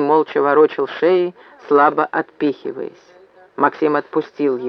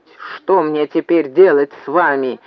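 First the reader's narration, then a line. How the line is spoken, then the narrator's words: Loud bark. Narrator (Russian): гаркнул он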